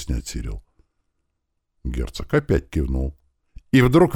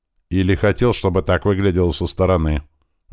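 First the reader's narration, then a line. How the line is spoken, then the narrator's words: Harsh objecting tone. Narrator (Russian): жестким тоном возразил Сирил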